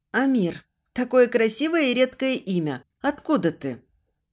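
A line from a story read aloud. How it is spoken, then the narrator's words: Soft laugh. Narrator (Russian): Он мягко посмеялся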